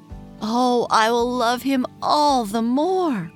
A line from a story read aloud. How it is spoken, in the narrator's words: cried George